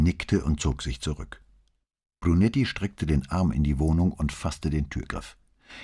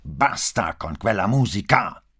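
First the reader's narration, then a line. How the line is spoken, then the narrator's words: Angry shout, patience snapping. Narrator (German): schrie wütend wie einer, dem gleich der Geduldsfaden reißt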